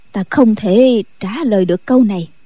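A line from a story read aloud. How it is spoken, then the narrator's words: Sighing reply. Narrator (Vietnamese): Định Vật thở dài đáp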